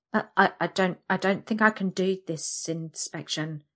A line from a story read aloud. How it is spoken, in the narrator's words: I stammer